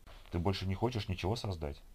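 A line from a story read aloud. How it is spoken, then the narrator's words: Plain. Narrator (Russian): спросил он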